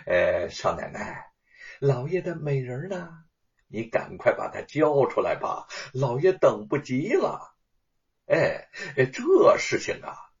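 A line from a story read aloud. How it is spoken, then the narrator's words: Respectful, smiling. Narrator (Chinese): 恭敬的笑着说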